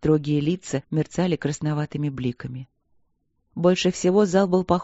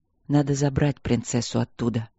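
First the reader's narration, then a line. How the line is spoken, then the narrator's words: Quiet. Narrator (Russian): тихо сказал Стрелковский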